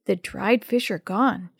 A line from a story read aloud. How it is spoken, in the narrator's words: she whispered